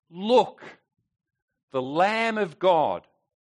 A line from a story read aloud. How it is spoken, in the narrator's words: John, upon seeing Jesus, exclaims